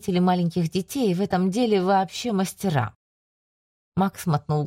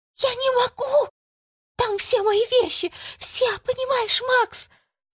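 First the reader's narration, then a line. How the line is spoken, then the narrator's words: Whispered shout, woman. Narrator (Russian): Только женщины умеют кричать шепотом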